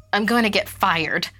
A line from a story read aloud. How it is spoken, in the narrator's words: Allison blurted out cynically